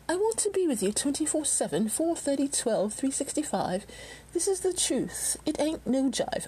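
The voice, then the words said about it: Put-on English accent. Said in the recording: “I don't know why I'm doing it in that accent. Probably because Eurythmics are English”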